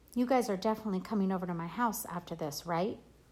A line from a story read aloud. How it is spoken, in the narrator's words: I called out to her